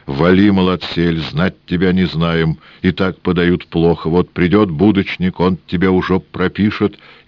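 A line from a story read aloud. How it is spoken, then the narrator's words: Grumbling old woman and man. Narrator (Russian): Бабка Кликуша и дед без нос заворчали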